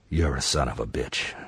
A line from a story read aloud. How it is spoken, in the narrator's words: she says in a low voice